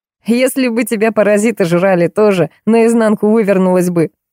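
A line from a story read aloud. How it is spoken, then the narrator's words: Laughing. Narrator (Russian): засмеялся Кирюшка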